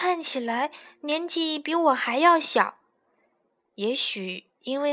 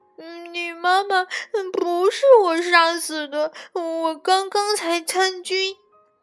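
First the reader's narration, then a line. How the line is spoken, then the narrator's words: Sobbing loudly. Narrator (Chinese): 他开始大哭起来，说道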